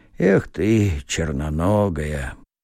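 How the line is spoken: Through gritted teeth. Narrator (Russian): проговорив сквозь зубы

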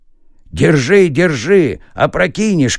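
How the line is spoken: Shouted. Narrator (Russian): крикнул он ему

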